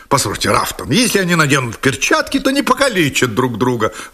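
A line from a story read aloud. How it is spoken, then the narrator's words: Exclaimed. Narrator (Russian): воскликнул лорд Сэндлер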